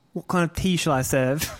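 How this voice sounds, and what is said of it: Poor imitation of an English actor. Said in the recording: “It's not a good imitation ... I hate when you put your voice in the front of your mouth.”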